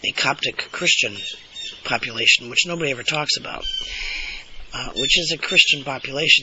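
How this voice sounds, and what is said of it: Throaty, congested-sounding voice. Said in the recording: “excuse my voice, by the way, it's allergy time ... it's in my throat and up my nose ... it does affect my voice”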